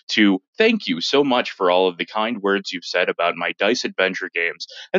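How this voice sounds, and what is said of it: Smooth radio announcer voice. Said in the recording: “using my radio voice”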